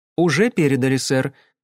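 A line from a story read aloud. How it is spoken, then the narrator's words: Plain. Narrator (Russian): сказала Кэсси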